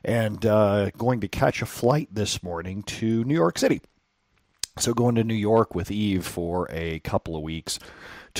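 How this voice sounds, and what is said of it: Raspy morning voice. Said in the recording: “the voice is a little raspy.”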